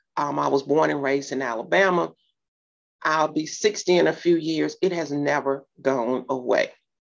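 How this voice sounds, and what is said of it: Southern drawl. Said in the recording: “people can hear my Southern drawl.”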